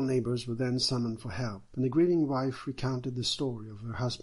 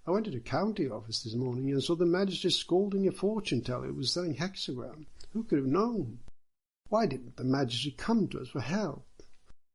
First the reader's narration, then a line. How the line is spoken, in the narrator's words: So they all cried